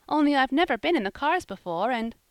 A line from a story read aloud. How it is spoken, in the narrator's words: said Polly, brightly, with a merry little laugh